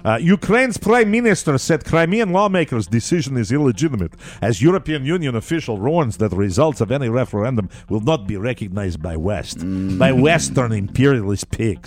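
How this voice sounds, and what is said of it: Put-on Russian accent reading news. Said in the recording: “I will probably do all of the Ukrainian stories from this point forward with the Russian accent ... doing a Russian accent ... Kilorski”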